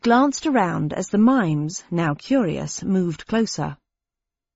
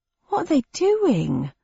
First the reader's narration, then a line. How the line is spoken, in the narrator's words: asked the cabbie, his voice tremulous with rising fear